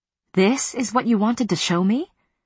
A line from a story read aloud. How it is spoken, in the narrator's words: My voice shook